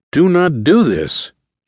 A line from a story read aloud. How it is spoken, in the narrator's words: John pleaded